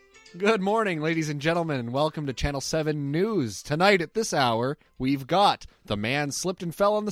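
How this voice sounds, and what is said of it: Put-on news anchor radio voice. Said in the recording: “I have the golden radio voice ... I don't want to hear you speak news.”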